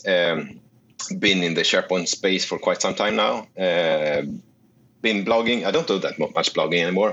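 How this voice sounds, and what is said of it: Non-local foreign accent. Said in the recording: “your accent isn't from around here, like mine”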